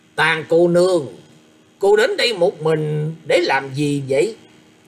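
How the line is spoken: Loud, sinister smiling voice. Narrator (Vietnamese): một nụ cười âm u sâu hiểm, lớn tiếng nói

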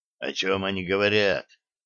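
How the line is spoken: Whisper in ear. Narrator (Russian): шепнул на ухо капитану Греф

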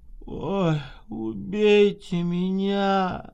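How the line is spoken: Tipsy woman's moan. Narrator (Russian): простонала полупьяная Скворцова

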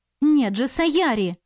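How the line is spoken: Exclaiming. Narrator (Russian): воскликнула я

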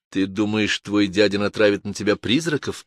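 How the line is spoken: Muttering. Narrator (Russian): пробормотала Джой

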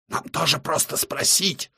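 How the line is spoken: Old man's sudden heated whisper. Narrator (Russian): вдруг шепотом вспыхивает щуплый старичок

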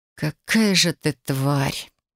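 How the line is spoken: Hoarse rasp. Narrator (Russian): прохрипела я

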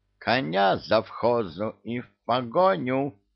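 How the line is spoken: Squeaky. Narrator (Russian): пискнул великий и ужасный

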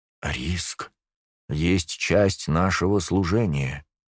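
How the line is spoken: Arrogant drawl. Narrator (Russian): высокомерно протянул мой собеседник

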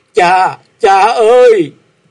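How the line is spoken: Anguished wail. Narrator (Vietnamese): Dịch Tú Vân thảm thiết kêu lên

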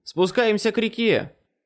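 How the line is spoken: Shouting over battle noise. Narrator (Russian): крикнул я, перекрывая шум битвы

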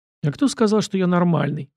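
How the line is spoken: Dry question. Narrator (Russian): сухо спросил

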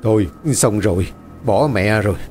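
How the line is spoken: Trembling old man's stammer. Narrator (Vietnamese): Ông già Tư giọng run rẩy lắp bắp

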